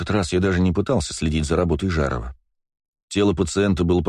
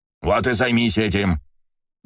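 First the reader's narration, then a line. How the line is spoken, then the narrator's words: Growl. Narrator (Russian): зарычал Жаров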